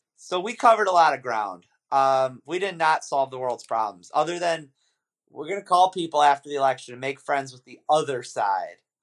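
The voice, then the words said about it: Hoarse, fading voice from illness. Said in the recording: “because I'm sick ... I can only talk for a half hour because I'm losing my voice.”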